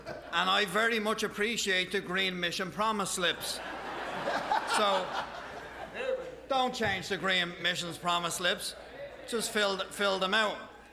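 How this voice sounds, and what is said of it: Irish accent. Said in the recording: “from Ireland, and you'll appreciate his accent”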